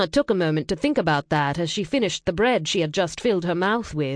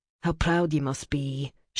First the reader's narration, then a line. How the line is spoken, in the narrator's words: muttered, and then sighed out her irritation